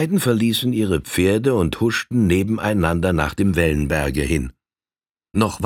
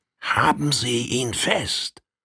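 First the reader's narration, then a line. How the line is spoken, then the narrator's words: Very quiet question in German. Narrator (German): fragte derjenige, welcher den Indianer gepackt hielt, den andern ganz leise, und zwar in deutscher Sprache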